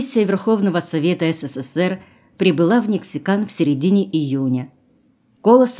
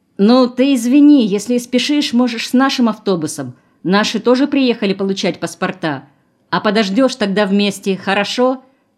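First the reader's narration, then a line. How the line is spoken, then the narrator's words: Shouted while running. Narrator (Russian): Крикнул уже на бегу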